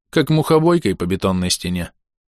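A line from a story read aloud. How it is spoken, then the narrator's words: Sighing. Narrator (Russian): вздохнул алхимик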